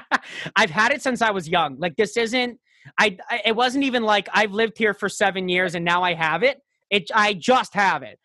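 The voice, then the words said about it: New York accent. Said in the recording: “very easy to pretend that I am ... How the fuck do you have this accent?”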